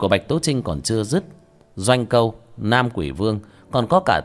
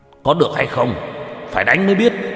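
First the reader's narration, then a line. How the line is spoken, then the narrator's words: Shaken, angry shout. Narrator (Vietnamese): Hậu Khanh cảm giác trong lòng bị đả kích kịch liệt, quát lên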